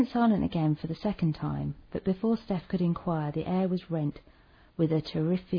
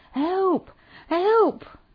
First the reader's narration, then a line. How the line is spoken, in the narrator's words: cried out